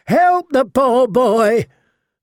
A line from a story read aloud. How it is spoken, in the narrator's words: the Queen of Thorns screeched in a voice 10 times her size